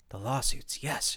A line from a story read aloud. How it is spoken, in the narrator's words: whispered